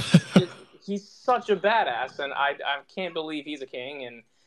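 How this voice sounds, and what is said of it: Usual voice. Nothing is said of it.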